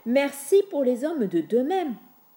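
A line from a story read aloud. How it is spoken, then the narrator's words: Shouted. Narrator (French): lui cria Rosanna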